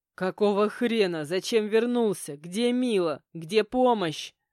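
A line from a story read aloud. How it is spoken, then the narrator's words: Roared. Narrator (Russian): Взревел я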